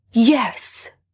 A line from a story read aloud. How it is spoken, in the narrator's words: he exclaims